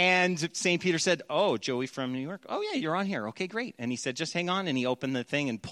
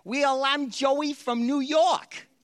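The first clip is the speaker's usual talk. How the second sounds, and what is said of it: Weak put-on New York accent. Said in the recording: “That's like not a good New York accent, but that was my best attempt.”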